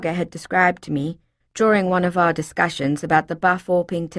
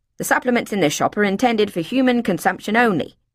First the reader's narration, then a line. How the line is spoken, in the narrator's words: he snapped